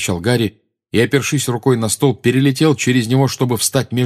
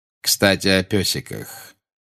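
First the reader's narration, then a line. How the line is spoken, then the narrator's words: Tender. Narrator (Russian): нежно сказал Снег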